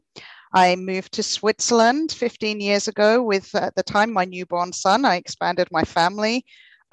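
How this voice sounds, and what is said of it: British accent. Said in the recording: “You can probably tell I still have the accent. I'm originally from the UK.”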